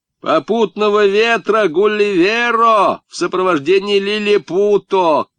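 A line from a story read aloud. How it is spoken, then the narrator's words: Smug shout, then laughter. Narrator (Russian): крикнул самодовольный Сашка и захохотал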